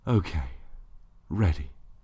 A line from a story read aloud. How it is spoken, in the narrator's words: she sighed